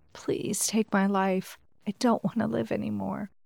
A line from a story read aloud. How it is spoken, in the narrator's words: whispered